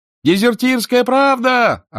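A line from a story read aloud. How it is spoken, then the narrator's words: Yelled by a vendor. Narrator (Russian): орал продавец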